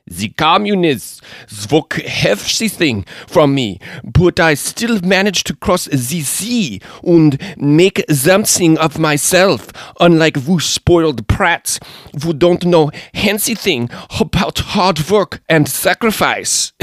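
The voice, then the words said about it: Imitated thick German accent. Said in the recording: “mean old German lady, came over from Dresden ... in that accent of hers you could hardly understand at all ... That's what it sounded like.”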